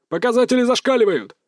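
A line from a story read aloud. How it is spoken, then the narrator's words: Shout from behind. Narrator (Russian): закричал кто-то сзади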